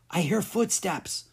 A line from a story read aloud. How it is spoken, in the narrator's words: she whispered